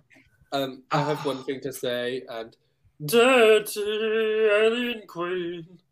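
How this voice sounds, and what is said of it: Impression of Cheddar Gorgeous's voice. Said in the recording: “doing my Cheddar gorgeous voice”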